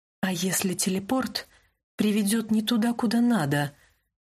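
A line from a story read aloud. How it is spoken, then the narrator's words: Hurried whisper. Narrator (Russian): торопливо зашептала я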